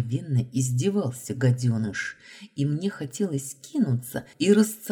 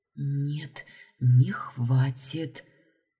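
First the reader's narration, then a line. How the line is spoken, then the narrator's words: Barely audible whisper. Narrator (Russian): прошептала в ответ практически одними губами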